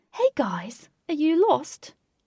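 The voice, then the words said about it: Posh accent. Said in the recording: “He said in a posh accent,”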